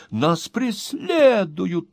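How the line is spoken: Distressed young woman exclaiming. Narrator (Russian): воскликнула молодая леди, заламывая руки

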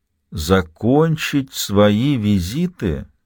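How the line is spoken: Drawn out, testing. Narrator (Russian): протянул он, словно проверяя, может ли быть у фразы иной смысл

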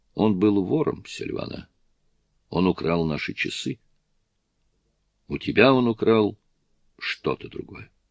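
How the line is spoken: Soft, gentle. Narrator (Russian): Анни сказала мягко

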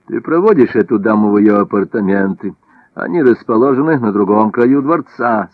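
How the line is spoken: Plain. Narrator (Russian): сказал Наполеон

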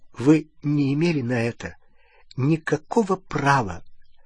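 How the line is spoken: Trembling voice. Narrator (Russian): она сказала дрогнувшим голосом

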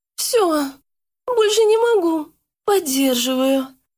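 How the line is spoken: Moaning. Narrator (Russian): простонала Яна

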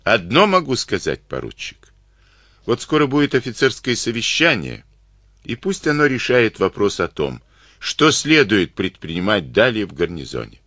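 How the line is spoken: Sad. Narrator (Russian): Никита Семенович печально закончил

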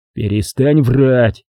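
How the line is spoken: Angry. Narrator (Russian): сказал я сердито

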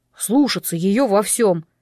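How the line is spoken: Stern command. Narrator (Russian): строго приказал

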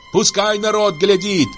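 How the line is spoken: Shouting. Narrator (Russian): кричала Аксинья

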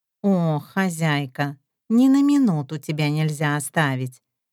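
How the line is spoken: Joking grumble. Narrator (Russian): Раздается шуточное ворчание

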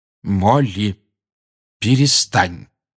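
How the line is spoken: Firm voice. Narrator (Russian): твердым голосом сказал Люпин

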